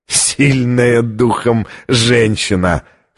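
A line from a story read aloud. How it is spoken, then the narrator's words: Hoarse laughter. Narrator (Russian): хрипло рассмеялся ассасин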